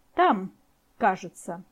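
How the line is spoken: Sharp, slightly guttural voice. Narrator (Russian): Рогнеда снова спросила резким, чуть гортанным голосом

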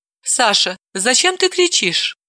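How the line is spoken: Soft question. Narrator (Russian): мягко спросила Далила

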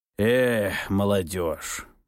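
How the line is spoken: Disapproving sigh. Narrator (Russian): Неодобрительно покачав головой, вздохнул он

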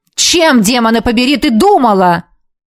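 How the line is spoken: Barked. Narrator (Russian): рявкнул он

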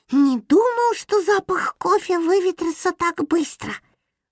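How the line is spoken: Agitated small animal. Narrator (Russian): взволнованно сказал хомячок

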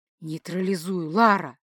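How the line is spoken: Whisper. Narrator (Russian): прошептал Дан

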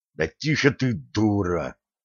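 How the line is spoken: Furious hiss. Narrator (Russian): яростно зашипел Ланс

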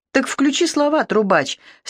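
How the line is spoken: Condescending snort. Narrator (Russian): снисходительно хмыкнул Сергей

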